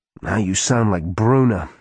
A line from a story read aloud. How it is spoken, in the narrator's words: Alicia groaned